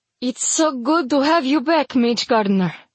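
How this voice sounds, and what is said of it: Thick, lyrical accented female character voice. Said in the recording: “Her accent is thick, but lyrical and lovely.”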